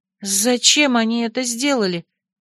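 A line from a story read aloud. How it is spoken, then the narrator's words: Trembling question. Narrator (Russian): дрожащим голосом спросила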